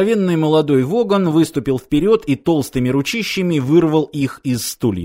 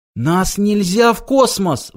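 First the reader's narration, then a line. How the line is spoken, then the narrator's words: Pleading. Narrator (Russian): взмолился Форд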